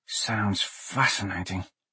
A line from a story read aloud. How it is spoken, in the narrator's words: Blaze whispered